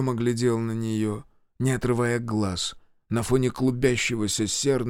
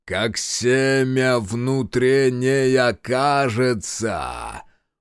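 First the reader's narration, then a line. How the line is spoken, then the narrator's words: Thundering. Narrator (Russian): прогремел раздор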